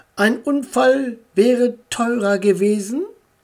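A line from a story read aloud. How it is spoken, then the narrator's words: Plain. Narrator (German): sagte Frau Meier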